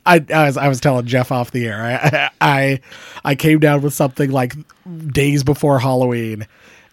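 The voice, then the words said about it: Scratchy, rough sick voice. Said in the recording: “partied too hard for Halloween. That's why my voice is scratchy ... my voice like took a shit ... I'm gonna have like this terrible voice”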